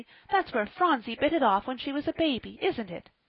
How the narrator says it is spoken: cried Polly

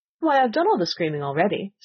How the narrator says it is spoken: said the Queen

